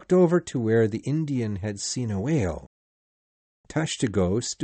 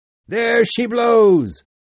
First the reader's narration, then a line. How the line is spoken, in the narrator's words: Then Tashtego, who was keeping watch, suddenly cried out